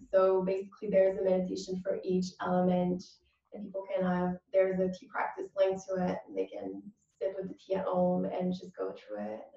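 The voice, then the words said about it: Slight French accent. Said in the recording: “my first language is French. That's why I have a little accent.”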